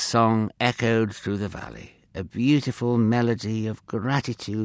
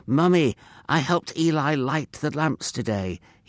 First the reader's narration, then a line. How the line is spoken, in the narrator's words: would exclaim, his face beaming